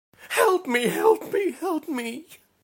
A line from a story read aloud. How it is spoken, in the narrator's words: she screeched, her face contorted into an expression of the purest fear